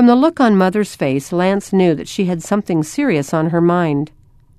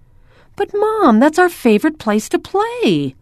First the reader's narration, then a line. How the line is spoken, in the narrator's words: Lance cried